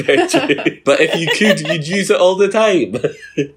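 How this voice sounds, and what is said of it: Usual voice. Nothing is said of it.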